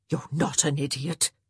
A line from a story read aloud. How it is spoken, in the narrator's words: she whispered fiercely